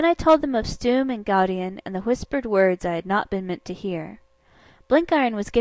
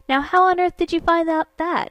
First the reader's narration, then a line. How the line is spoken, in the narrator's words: he cried